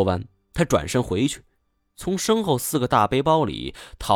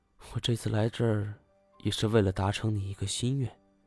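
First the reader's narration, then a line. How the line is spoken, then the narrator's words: Very gentle. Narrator (Chinese): 叶欣欣忽然变了一种极其温柔的口吻道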